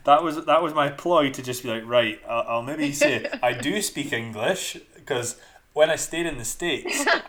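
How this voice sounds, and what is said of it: Thick Scottish accent. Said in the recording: “this Scottish guy from Dundee ... I'm Scottish with a thick Scottish accent, but I lived in Michigan for a year.”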